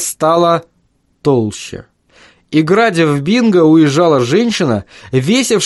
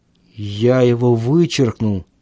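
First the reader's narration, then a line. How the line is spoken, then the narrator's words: Mutter. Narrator (Russian): пробормотал он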